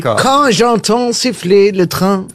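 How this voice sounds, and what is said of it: Put-on German accent, sung. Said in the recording (French): “avec l'accent allemand? Ça, oui. Alors, ouais. Les trains et l'accent allemand”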